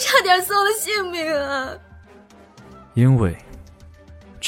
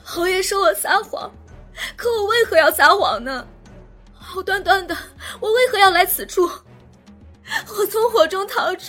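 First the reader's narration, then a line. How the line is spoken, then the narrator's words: Crying. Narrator (Chinese): 郑云霓又哭道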